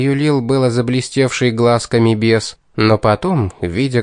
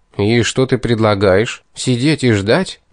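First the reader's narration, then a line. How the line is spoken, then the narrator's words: Grim, despairing question. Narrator (Russian): мрачно спросил я, изо всех сил борясь с накатившим на меня после откровений беса отчаянием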